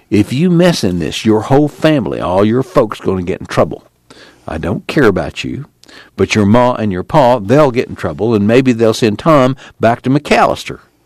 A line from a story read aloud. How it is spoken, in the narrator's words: Casey said softly